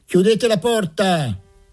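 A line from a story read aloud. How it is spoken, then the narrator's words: Shouted. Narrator (Italian): qualcuno gridò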